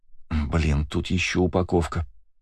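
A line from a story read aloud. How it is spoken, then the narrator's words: Muttering. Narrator (Russian): пробормотала Кристина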